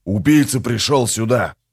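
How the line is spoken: Growling. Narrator (Russian): прорычал новоприбывший

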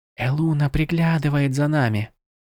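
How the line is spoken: Whisper. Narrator (Russian): прошептала Тиранда

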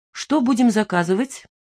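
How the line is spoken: Abrupt change of topic. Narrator (Russian): добавил, резко меняя тему

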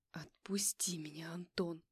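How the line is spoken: Hissing through teeth, near tears. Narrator (Russian): Прошипела я сквозь зубы, чувствуя, как слезы начинают подступать к глазам

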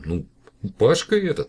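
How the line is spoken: Laughing. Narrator (Russian): рассмеялся директор

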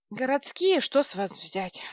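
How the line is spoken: Sighing older man. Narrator (Russian): вздохнул дяденька

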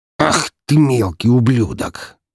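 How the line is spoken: Hiss through teeth. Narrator (Russian): прошипел он сквозь зубы

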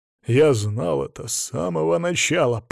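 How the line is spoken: Growl. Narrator (Russian): прорычал Анилит

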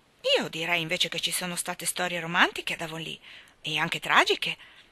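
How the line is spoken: Dry tentative remark. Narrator (Italian): azzardò seccamente il signor Harrison

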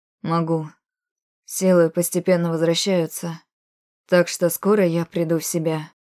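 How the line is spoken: Weak voice. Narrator (Russian): вымолвил он пока слабым голосом

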